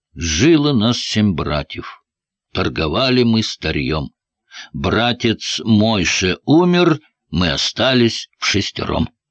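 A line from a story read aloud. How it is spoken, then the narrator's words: Sad wailing. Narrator (Russian): заголосил печально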